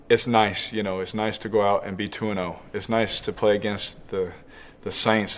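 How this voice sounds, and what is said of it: Tired, worn-out voice. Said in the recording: “I'm tired of talking ... some people can probably hear it in my voice sometimes”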